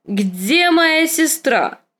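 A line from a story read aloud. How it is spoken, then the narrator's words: Drunken shout. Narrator (Russian): крикнул визырь с голосом, полным вина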